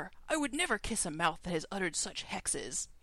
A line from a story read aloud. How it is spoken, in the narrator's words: Antimage snapped